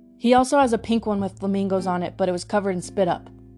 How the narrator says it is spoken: I blurted out

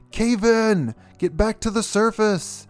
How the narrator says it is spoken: Jack screamed out

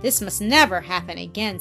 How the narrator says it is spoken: said the lady sternly

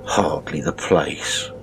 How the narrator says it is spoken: he said in a low voice, as if to himself, and with feigned amazement

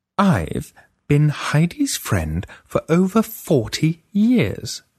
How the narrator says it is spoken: Freya said slowly

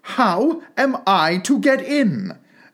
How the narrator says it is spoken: asked Alice again in a louder tone

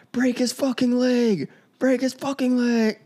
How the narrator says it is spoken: Terry screaming

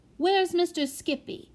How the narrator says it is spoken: asked the prodigy anxiously

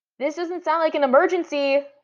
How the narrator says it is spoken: Lily shouted from the stall

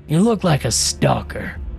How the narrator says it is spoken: he snarled

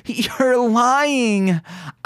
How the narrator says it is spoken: whimpered

